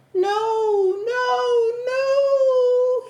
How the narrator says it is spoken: he moaned

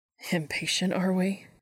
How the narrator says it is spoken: he teased

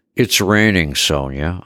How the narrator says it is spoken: replied bitterly

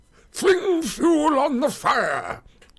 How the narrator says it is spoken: cried Gandalf to the hobbits

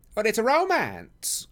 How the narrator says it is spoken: cried Mrs

